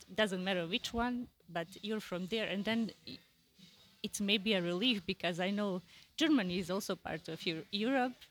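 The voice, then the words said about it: European-accented English. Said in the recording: “my accent ... You have European accent.”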